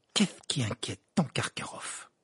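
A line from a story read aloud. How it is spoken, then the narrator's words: Murmured. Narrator (French): murmura Ron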